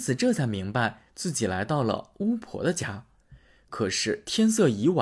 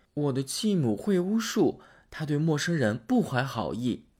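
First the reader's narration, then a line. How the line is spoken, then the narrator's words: Girl sighing. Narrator (Chinese): 姑娘叹了口气说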